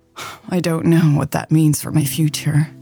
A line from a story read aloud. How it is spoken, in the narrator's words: Lex sighed